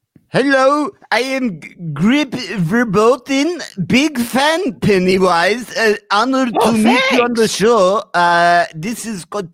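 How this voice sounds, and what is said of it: Put-on foreign accent, character voice. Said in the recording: “What accent is that?”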